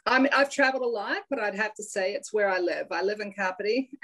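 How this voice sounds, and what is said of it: Hybrid accent with American tones. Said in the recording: “I am noticing an accent. ... I have this hybrid accent ... a bit of American in there”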